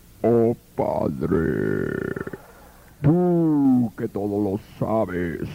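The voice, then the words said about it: Deep, sepulchral, exaggerated prayer voice. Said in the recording (Spanish): “esos que hacen la voz así ... voz de ultratumba”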